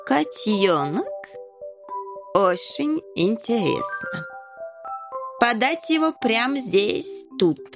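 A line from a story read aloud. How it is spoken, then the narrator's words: Accented speech. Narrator (Russian): Король всегда говорил с акцентом, дабы отличаться от подданных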